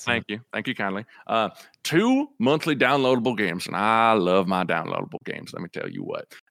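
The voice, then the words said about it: Put-on cowboy accent. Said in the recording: “Do the cowboy voice ... I'm gonna read this in a cowboy voice ... You're actually doing pretty good with that accent.”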